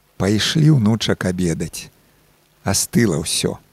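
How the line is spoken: Gentle tone. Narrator (Belarusian): ўжо лагодным тонам дадала

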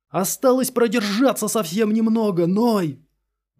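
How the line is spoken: Shout of wild jubilation. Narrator (Russian): закричал в безумном ликовании Мейер

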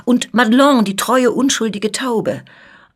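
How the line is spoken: Shout. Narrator (German): rief die Scuderie

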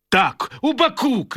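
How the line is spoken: Shout. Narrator (Belarusian): крычыць ён

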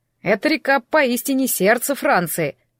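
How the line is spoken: Slightly irritated. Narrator (Russian): слегка раздраженно ответил водитель

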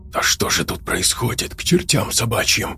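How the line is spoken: Stunned whisper. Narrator (Russian): прошептал оторопело Фабрис

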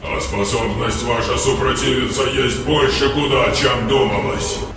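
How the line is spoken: Guttural vibrating monster voice. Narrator (Russian): Гортанным вибрирующим голосом произнесло чудовище

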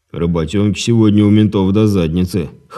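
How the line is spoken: Snorting remark. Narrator (Russian): хмыкнув, заметил Лёва

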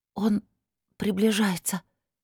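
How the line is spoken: Frightened whisper, young woman. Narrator (Russian): испуганно прошептала девушка

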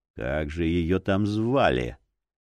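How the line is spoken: Old man's quiet grumble. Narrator (Russian): тихонько проворчал старик

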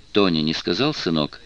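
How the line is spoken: Calm question. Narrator (Russian): спокойно спросил Джек

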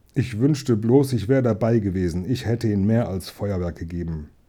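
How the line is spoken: Murmur. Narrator (German): murmelte

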